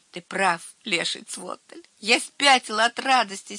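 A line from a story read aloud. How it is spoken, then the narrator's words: Laughing reply. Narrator (Russian): смеясь отвечал Херби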